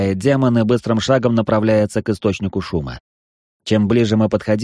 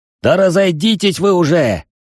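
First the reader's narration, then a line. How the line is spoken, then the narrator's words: Young man shouting. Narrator (Russian): выкрикнул молодой парень с рыжими волосами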